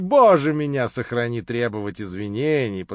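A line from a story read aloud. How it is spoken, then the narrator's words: Laughing. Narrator (Russian): подхватил он, смеясь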